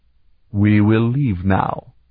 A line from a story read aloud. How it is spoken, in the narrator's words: Scarpa said coldly